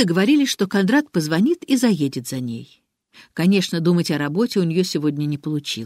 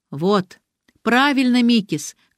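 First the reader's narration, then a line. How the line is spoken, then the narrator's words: Shouting approvingly. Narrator (Russian): крикнула Ариадна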